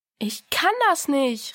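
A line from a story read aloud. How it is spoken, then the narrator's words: Called out. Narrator (German): rief Diana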